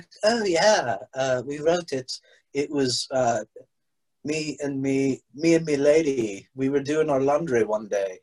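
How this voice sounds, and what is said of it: Put-on English accent. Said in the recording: “I don't know why I keep doing that accent. ... You think, think all rock stars are from England?”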